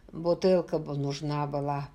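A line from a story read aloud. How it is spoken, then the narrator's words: Mutter. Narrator (Russian): пробормотал он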